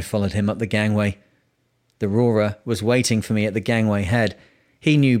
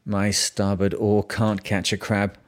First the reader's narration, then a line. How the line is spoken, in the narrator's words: I muttered under my breath